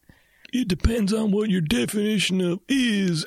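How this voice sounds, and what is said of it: Imitates another person's voice. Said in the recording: “That was my impersonation of Mark doing an impersonation of Bill Clinton.”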